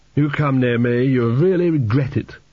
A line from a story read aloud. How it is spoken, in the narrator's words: moaned Chidder, clutching his stomach